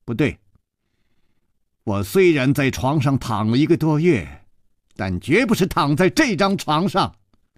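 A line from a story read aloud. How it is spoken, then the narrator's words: Firm, loud. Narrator (Chinese): 少女断然地摇了摇头，大声地说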